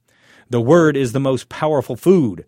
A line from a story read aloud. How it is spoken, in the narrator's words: thundered the preacher